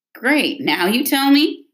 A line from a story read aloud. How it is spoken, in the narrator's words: Roy said with a laugh